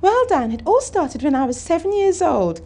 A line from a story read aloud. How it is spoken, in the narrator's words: Callie squeaked